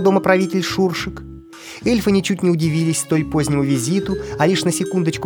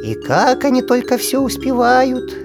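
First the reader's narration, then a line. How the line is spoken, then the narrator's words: Heavy sigh. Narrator (Russian): тяжело вздохнув, произнес Шуршик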